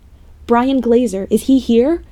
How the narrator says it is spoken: I yelled urgently

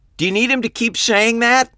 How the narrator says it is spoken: I shouted

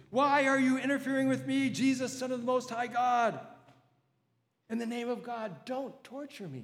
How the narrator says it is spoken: Job shrieks and screams

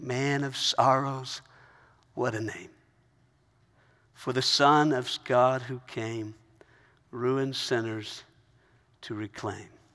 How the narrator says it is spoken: she began softly singing

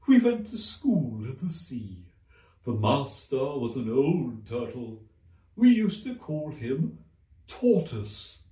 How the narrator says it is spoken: the Mock Turtle went on at last, more calmly, though still sobbing a little now and then

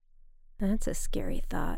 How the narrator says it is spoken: I muttered

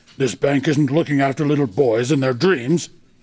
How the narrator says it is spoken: he snarled

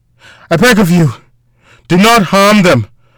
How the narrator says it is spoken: the voice of her father called out in a pained tone

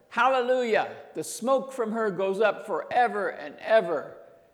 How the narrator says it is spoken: they shouted

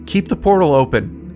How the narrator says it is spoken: Alice cried

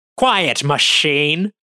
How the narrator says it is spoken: Astorga snaps

